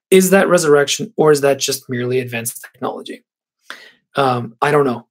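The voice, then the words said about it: Hoarse, nearly lost voice. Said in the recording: “I've almost lost my voice completely.”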